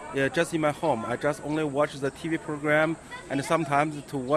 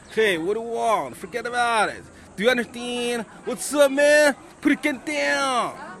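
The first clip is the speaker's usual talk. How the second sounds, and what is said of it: Imitated New York accent. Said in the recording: “imitate the New York accent.”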